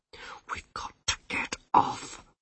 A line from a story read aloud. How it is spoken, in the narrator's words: whispered Rincewind